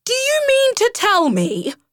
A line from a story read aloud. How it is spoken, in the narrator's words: shouted Rat